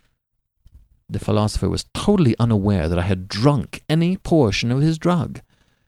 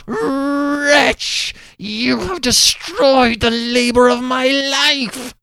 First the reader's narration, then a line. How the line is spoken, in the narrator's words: he shrieked aloud